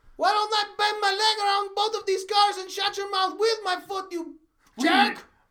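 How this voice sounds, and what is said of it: Put-on Mexican wrestler accent. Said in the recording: “Parker, the famous Mexican wrestler. ... That's the accent I'm doing.”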